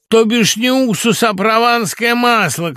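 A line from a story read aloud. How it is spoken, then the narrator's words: Shouting. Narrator (Russian): кричал он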